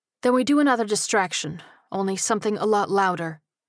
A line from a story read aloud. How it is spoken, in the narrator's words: Sparks said firmly